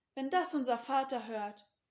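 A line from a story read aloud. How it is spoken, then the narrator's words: Horrified exclamation. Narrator (German): rief entsetzt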